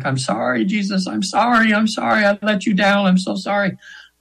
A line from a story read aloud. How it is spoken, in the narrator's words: screaming